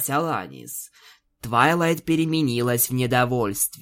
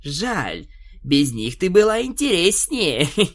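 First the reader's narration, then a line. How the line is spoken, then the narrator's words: Laughing. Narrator (Russian): Посмеявшись, Твайлайт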